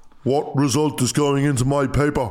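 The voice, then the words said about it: Big deep imitated voice. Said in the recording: “It's a good impression. ... he had a big deep voice.”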